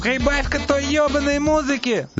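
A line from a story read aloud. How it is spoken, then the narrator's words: Shriek. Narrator (Russian): завизжал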